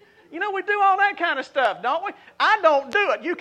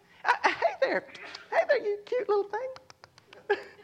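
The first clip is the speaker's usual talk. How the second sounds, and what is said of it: Awkward put-on baby-talk voice. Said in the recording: “You put on this baby voice, don't you? ... You can tell that was fake on my part, right? I'm not a natural at that.”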